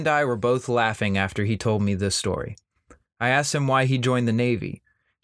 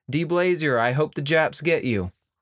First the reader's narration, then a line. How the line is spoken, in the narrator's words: she yelled